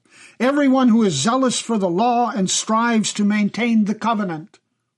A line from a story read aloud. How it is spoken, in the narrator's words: shouted